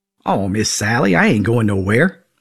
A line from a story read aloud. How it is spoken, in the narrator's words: I replied